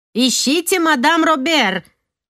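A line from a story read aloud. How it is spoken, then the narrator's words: Shouted from a window. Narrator (Russian): крикнула Гардьен из окошка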